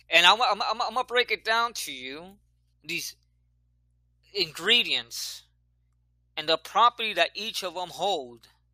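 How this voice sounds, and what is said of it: Speaks with a noticeable accent. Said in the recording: “Excuse me for my accent.”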